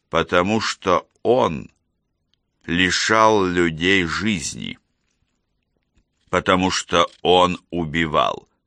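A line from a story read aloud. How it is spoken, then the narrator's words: Slow and distinct. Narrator (Russian): медленно и отчетливо проговорил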